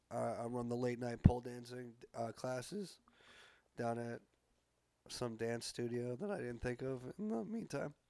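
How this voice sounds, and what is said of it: Slightly squeaky voice. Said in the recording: “I'm just getting over a cold ... my voice sounds a little squeaky”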